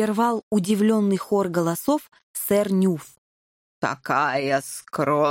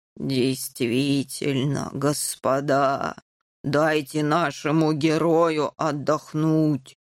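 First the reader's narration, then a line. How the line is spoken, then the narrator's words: Soft booming voice. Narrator (Russian): мягко прогудел сэр Нюф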